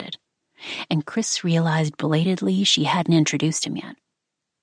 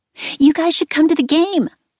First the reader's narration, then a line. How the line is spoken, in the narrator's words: Skylar chirped